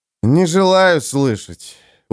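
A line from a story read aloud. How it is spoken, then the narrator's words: Tired warrior, curt. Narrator (Russian): устало обронил воин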